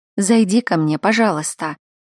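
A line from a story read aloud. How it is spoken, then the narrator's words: Tired request, granddaughter. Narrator (Russian): устало попросила внучка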